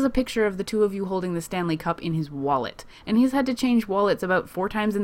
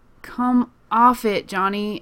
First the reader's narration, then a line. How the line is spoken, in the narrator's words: Erica groans